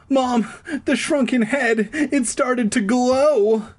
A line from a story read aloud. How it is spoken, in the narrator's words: I cried, my voice high and shrill